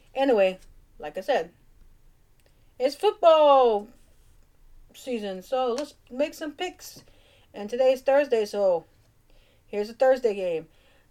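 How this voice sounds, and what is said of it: Cajun accent. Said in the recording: “Sometimes my Cajun accent just gets in my way.”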